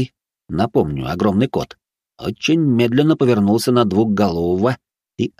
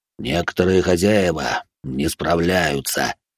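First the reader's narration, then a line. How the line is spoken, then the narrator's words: Quiet growl. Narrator (Russian): тихо прорычал он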